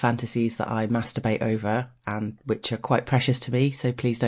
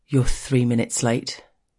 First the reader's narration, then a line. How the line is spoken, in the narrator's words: tells gruffly